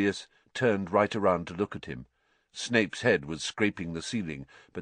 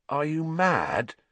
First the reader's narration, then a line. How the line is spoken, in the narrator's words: said Harry, his voice easily as croaky as Sirius